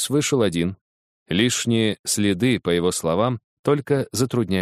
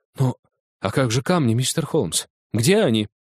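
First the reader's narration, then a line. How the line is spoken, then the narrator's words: Exclaiming. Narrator (Russian): воскликнул банкир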